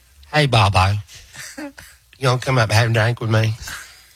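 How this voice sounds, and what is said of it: Imitates another person's voice. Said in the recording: “impersonate her”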